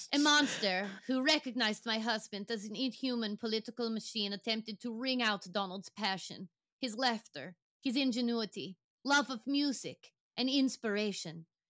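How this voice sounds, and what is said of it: Imitates another person's accented voice. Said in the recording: “read some of it in her accent ... I have to get into my Melania voice”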